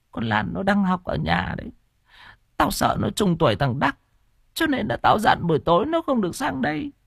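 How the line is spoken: Old woman's tearful whisper. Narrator (Vietnamese): Bà Động sụt sùi thều thào

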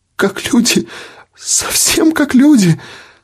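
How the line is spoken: Sobbing. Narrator (Russian): всхлипывала она

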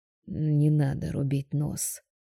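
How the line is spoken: Choked mumble. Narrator (Russian): сдавленно бормочет

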